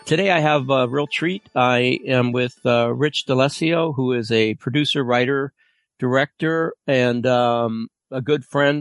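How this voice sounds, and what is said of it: Congested voice with a cold. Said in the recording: “I have a little bit of a cold, so I'm going to be sniffling and sneezing”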